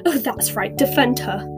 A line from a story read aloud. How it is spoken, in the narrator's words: snapped Ginny